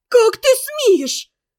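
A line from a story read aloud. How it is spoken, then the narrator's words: Angry shout. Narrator (Russian): закричала на него Ферсанова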